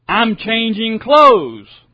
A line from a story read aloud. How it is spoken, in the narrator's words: She yells back at him